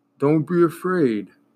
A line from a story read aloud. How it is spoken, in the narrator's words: said the one who was walking on his hands, and his voice sounded like the groaning of a tree